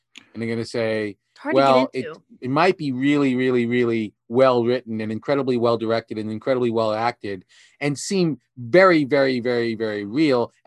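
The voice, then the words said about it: Sarcastic delivery. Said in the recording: “Are you being sarcastic?”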